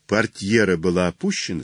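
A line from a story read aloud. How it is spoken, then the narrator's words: Plain. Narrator (Russian): спросил Холмс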